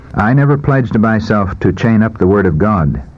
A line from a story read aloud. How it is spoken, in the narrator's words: he said